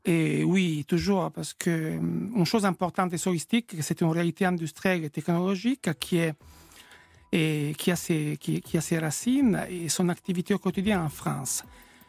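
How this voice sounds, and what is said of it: Italian accent in French. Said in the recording (French): “je ne suis pas français, vous entendez mon accent ... Italien.”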